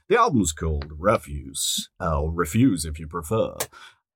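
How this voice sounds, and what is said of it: Put-on radio announcer voice. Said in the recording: “oh God, I've gone into radio voice.”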